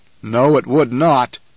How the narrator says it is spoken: the Baron growled

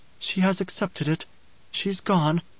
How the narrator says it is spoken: Ganima whispered

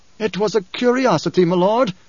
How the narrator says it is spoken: Korba pleaded

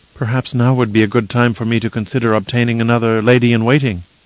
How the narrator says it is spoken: Kylea asked anxiously

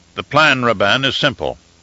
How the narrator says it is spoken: he answered finally

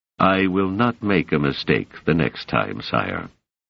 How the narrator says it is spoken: said Demerzel coldly

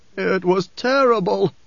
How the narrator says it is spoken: the man groaned

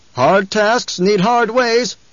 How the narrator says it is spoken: someone shouted

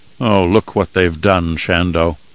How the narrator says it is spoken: whispered in a morose voice, as if he were a ghost

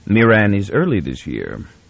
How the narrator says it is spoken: the captain said

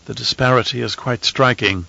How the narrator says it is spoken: Anirul said quietly

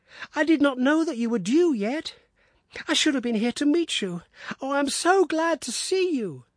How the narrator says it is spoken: cried

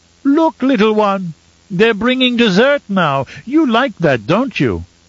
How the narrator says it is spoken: exclaimed in a childish voice

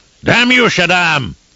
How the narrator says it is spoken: He bellowed up at the sky

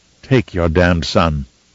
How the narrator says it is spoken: said, in the coldest of tones

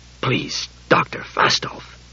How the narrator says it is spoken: he muttered

